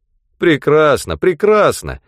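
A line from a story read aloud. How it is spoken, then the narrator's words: Cheerful reply. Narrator (Russian): весело ответил Хигби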